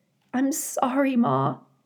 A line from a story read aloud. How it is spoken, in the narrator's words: said Brightbill, his voice trembling